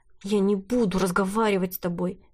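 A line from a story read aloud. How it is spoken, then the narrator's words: Angry but hushed. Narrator (Russian): Милада говорила очень сердито, но старалась потише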